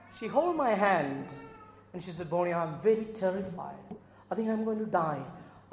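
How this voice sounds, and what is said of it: Indian English accent. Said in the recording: “probably the Indian accent”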